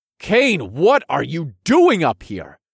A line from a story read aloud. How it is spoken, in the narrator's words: demanded in a harsh tone